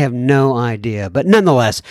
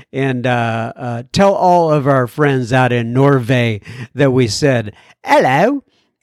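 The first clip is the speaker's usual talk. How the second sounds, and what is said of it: Put-on British accent. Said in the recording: “why would I say something to people in Norway with a British accent?”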